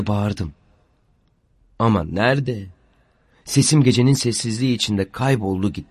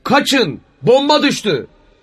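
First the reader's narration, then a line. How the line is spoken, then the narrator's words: Shouted. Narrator (Turkish): diye bağırmış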